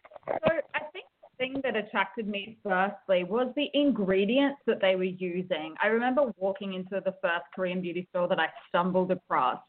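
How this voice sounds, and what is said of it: Australian accent. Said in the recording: “I don't hear a Korean accent. I said, it sounds Australian ... I'm an Australian ... probably with an Australian accent.”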